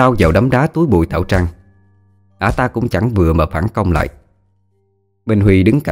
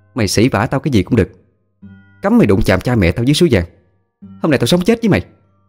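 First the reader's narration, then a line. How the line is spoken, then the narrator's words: Furious loud shout. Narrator (Vietnamese): Khả Hân không nhịn nổi nữa mà hét lớn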